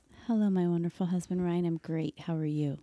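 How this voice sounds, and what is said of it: Sultry voice. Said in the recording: “talk in that sultry voice”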